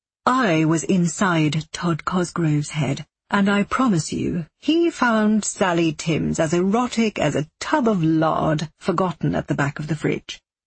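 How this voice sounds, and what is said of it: Plummy English public school voice. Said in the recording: “His Australian accent's gone. He has a plummy public school voice.”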